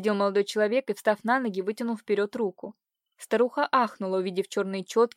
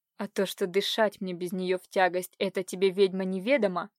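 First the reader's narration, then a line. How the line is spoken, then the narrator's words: Hollow sepulchral voice, through teeth. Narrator (Russian): Глухо загробным голосом процедил Иван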